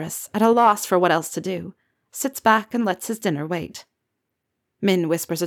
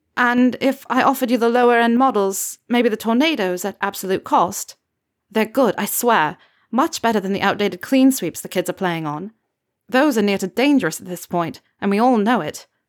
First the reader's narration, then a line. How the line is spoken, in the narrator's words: Ginny says